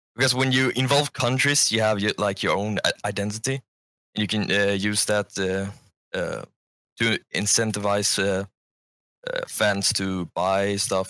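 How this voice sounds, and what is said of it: Speaks with a noticeable accent. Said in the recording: “a crappy accent like I do ... I like your accent.”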